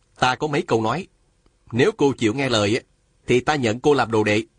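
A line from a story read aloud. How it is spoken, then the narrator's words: Stern. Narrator (Vietnamese): nghiêm giọng nói với Hà Thiết Thụ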